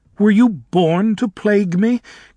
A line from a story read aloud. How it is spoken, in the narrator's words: Galinda said tearfully